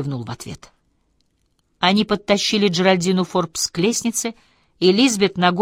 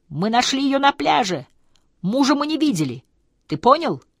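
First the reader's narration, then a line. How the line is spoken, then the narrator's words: Shout into ear. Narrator (Russian): она крикнула ему в самое ухо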